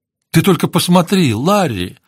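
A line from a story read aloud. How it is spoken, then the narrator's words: Exclaiming. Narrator (Russian): воскликнула Кэтрин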